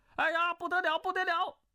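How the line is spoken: Scholar shouting loudly. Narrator (Chinese): 那书生大叫

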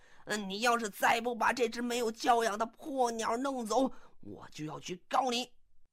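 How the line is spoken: Furious shouting. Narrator (Chinese): 波莎终于是忍无可忍了…怒气冲冲的就嚷到了

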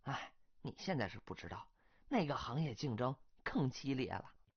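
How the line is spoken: Sighing. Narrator (Chinese): 这个姑娘 叹口气说

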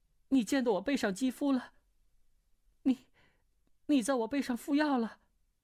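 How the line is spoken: Angry, flustered, panting. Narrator (Chinese): 穆婉清又气又急，喘息道

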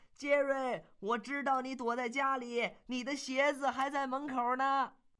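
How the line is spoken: Loud shout. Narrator (Chinese): 他大声地喊

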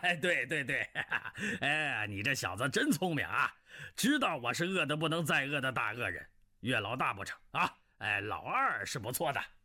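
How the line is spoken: Delighted laughter. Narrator (Chinese): 南海恶神大喜，笑道

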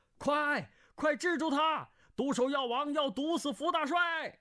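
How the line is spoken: Shouting. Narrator (Chinese): 胡斐跟着叫道

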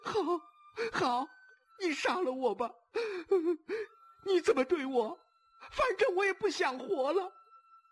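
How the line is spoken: Sobbing loudly. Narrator (Chinese): 慕容秋迪的声音忽然变成了悲哭，他大哭着说

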